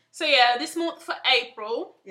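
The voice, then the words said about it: Put-on British accent. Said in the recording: “I don't know why I'm talking in a British accent.”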